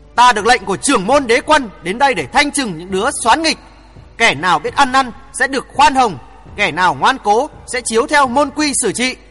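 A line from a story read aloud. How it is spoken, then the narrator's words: Hissing through clenched teeth. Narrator (Vietnamese): Hoàng Thượng Chí cắn răng rít lên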